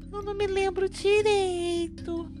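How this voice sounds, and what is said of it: Small child's voice. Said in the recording (Portuguese): “Eu experimentei então fazer voz de criancinha.”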